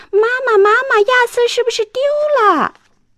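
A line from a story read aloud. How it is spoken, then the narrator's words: Loud shout. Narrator (Chinese): 朵拉大声喊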